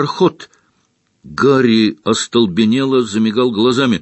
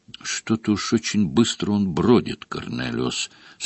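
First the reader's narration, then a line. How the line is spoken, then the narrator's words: Completely calm remark. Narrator (Russian): совершенно спокойно заметил Дамблдор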